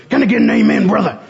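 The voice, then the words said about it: Gruff wrestler-style preacher voice. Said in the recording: “That's my Hulk Hogan preacher voice”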